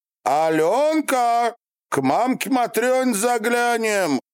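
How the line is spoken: Shout mumbled through coins. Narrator (Russian): Распихивая за зубами монеты и оттого не выговаривая половину букв, крикнул Фролка

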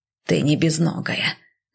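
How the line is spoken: Grumbled. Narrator (Russian): зачем-то проворчала

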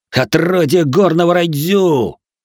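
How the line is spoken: Many voices yelling. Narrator (Russian): заорали сразу несколько лучников

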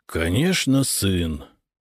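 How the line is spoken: Tired reply. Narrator (Russian): устало ответил банкир

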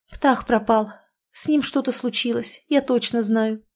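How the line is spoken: Sudden quiet confession, puffing. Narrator (Russian): вдруг тихо призналась Леночка, забавно отдуваясь после явно не аптекарской дозы живительной жидкости

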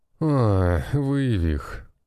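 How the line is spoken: Exasperated groan. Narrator (Russian): простонал я, поражаясь проблемности этой одаренной

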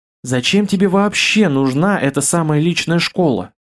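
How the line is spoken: Sighing. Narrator (Russian): вздохнула Бестужева

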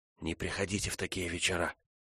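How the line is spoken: Whispered. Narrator (Russian): прошептала Фрона

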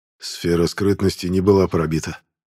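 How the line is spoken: Strained, forced words. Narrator (Russian): тяжело выдавил из себя Аздемир

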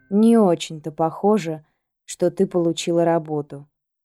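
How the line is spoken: Soft. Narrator (Russian): мягко сказал Алекс

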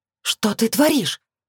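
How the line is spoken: Hiss. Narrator (Russian): Прошипело зло

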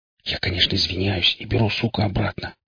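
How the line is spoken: Recovering whisper. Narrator (Russian): прошептал вслух, немного придя в себя

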